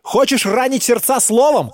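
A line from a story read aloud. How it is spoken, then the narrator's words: Shouted. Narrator (Russian): крикнул он старику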